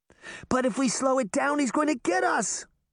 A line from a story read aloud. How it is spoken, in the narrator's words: Sabrina shouted